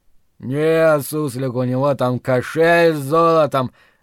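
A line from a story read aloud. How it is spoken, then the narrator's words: Lazy drawl, hog. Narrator (Russian): лениво протянул хряк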